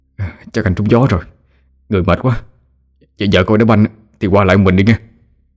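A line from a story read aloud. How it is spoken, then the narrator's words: Shaky voice. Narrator (Vietnamese): anh ta run run giọng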